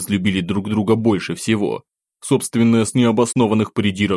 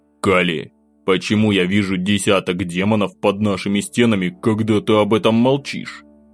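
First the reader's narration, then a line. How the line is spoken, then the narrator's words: Displeased growl. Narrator (Russian): недовольно прорычал я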